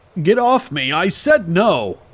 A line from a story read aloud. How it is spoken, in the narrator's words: I roared at the annoying twat